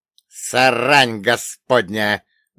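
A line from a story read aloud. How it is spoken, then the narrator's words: Witch cursing angrily. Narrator (Russian): зло выругалась ведьма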